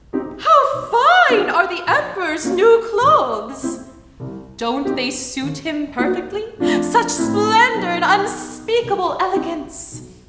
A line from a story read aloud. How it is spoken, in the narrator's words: everyone in the city, on the ground and from the windows, exclaimed in admiration